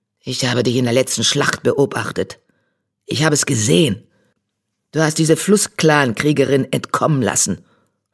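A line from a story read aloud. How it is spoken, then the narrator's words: Hissing. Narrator (German): fauchte er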